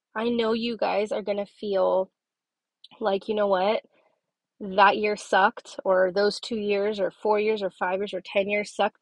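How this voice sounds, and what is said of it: Congested, sniffly sick voice. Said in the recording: “Excuse my voice. I'm still have some lingering stuff going on... I didn't really have a very good voice. Nobody wants to hear me sniffling”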